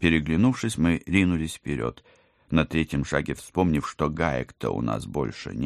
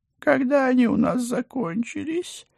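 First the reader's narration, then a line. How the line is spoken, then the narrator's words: Anguished howl. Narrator (Russian): страдальчески взвыл Пусик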